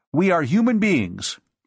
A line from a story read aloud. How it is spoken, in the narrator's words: Frank said sharply